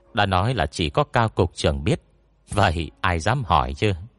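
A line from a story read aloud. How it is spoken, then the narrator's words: Whispering. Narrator (Vietnamese): Tôn Bẩm nhỏ giọng thì thầm một câu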